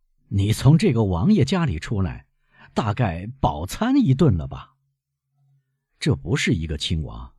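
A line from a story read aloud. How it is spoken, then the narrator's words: Laughing. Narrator (Chinese): 安德烈亚笑着回答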